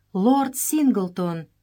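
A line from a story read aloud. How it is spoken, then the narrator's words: Exclaimed. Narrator (Russian): воскликнула Джелла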